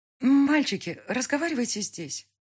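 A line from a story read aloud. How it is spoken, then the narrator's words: Frightened pleading mother. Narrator (Russian): просит мать испуганным голосом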